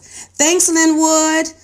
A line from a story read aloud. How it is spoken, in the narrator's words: I called out after him